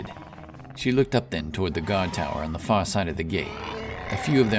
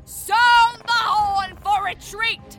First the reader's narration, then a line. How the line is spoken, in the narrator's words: she cried in command